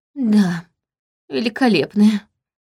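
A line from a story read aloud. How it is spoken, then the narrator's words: Unhappy voice. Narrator (Russian): отозвалась княжна несчастным голосом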